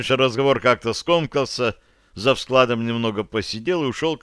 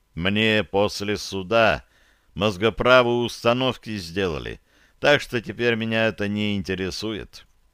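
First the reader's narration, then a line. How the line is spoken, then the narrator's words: Curt. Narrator (Russian): коротко ответил он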